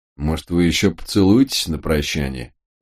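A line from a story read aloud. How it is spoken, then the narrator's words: Grumble. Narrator (Russian): пробурчал Март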